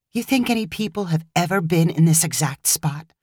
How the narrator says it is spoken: Kim whispered back

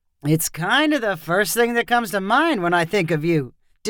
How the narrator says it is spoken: Deshaun replied in a teasing voice

